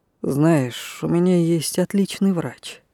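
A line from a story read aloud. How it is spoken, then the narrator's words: Quiet. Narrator (Russian): сказал негромко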